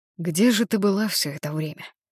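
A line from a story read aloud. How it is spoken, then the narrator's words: Plain. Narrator (Russian): спросил я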